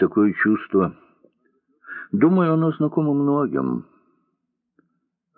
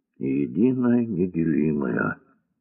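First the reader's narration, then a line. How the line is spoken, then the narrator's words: Quiet. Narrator (Russian): тихо сказал он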